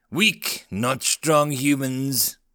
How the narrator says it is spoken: rumbled the warlord

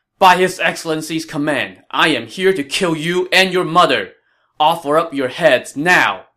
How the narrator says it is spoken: Yu Jin shouted

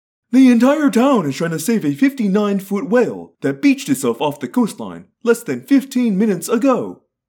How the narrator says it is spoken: the anchor woman chirped

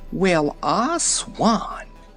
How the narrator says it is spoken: gurgled Aunt Em in a hoarse, frightened voice

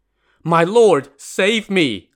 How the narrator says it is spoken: Lin Chong cried in desperation

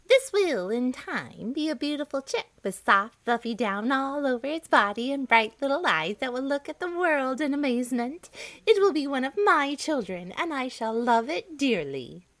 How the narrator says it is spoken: she would cackle to herself, saying

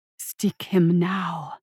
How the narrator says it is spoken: she whispered with a delicate hiss

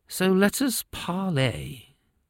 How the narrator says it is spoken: the king sighed

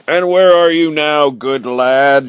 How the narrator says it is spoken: shouted the stranger, roaring with laughter

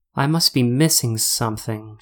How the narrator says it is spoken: she muttered out to herself

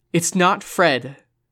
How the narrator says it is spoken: Susie shouted, her voice so taut that she wondered if her friends would recognize it

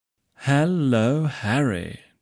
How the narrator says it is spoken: drawled

